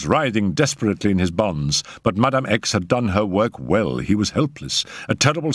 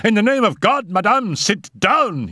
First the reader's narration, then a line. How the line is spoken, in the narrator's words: shouted